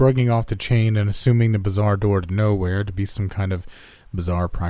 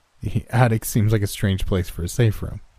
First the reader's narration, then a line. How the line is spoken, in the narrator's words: I chuckled